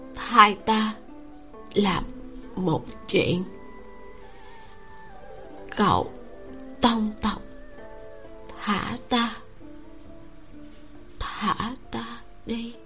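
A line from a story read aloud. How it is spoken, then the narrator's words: Sighing mutter. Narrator (Vietnamese): Bà ta thở dài một tiếng, lẩm bẩm nói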